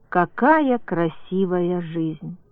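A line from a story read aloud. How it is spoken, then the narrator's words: Girl's thoughtful speech. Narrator (Russian): одна девушка задумчиво сказала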